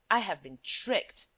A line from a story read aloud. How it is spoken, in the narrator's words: muttered Shears